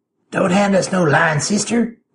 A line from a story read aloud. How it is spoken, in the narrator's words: Gold was saying in his nasty, rasping voice